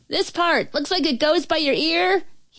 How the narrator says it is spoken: yelled

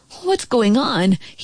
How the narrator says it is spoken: asked nervously

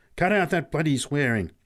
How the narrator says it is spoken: snapped Pat angrily

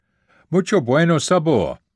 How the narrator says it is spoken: this very macho Mexican would shout

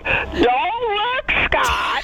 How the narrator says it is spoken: yelled out

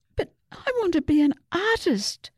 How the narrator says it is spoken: Susie wailed

